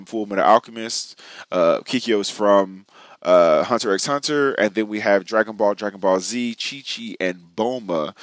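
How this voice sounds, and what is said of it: Scratchy, itchy-throated voice. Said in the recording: “Hopefully my voice will be a little less scratchy and a little less itchy, my throat”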